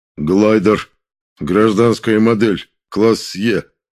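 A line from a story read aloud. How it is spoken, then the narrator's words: Wooden, emotionless. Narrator (Russian): одеревеневшим безэмоциональным голосом ответил Кром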